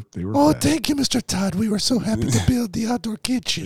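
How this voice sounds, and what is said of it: Put-on Mexican accent. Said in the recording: “doing the Mexican voice right now ... It was a Mexican voice. ... I thought it was Venezuelan.”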